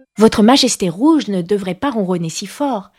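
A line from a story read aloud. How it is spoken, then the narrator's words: Respectful but stern. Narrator (French): dit Alice d'une voix respectueuse, mais empreinte d'une certaine sévérité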